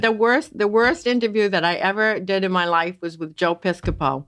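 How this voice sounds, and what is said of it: Maine accent, dropped R's. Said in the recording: “I'm hearing a bit of a twang ... Columbia Falls, Maine, and you hear no R's, we don't bother with them”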